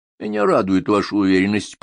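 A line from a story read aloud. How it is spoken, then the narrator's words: Muttered. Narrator (Russian): пробормотал комиссар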